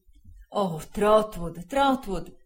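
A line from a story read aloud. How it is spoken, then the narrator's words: Distressed exclamation. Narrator (Italian): esclamò il signor Wickfield, torcendosi le mani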